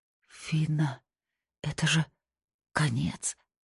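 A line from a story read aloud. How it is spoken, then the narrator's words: Frightened whisper. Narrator (Russian): прошептала она, и в этом шепоте было больше страха, чем во всех предыдущих криках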